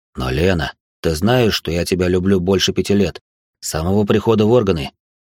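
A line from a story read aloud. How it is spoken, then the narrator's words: Passionate whisper. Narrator (Russian): жарко шептал мужчина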